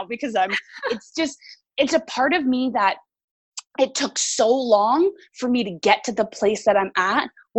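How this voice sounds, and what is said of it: Teary, emotional voice. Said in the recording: “I'm getting teary-eyed now”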